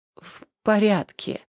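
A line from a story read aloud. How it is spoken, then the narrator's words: Slurred mumble. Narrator (Russian): пробормотал, едва ворочая языком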